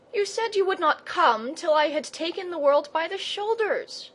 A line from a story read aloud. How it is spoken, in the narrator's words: gasped Leo